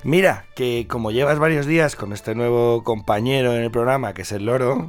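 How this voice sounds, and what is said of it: Hoarse, deep, husky voice. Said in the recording (Spanish): “un poquito afónico... Me nota la voz tomada sí, nota... y como esa profundidad... Es la voz de hombre.”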